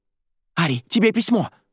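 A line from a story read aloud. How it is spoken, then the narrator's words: Agitated mutter. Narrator (Russian): взволнованно бормотала соседка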